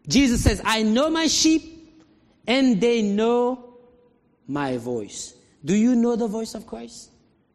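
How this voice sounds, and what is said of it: Non-native English accent. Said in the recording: “Of course I have an accent. English is my third language.”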